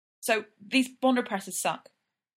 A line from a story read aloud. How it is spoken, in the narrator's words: Sid blurts out